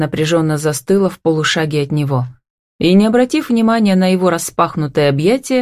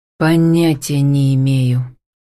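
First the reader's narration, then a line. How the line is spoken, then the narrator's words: Heavy sigh. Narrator (Russian): тяжело вздохнул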